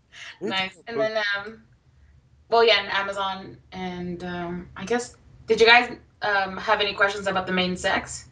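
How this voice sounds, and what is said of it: Speaker with a noticeable accent. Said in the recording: “It's my accent.”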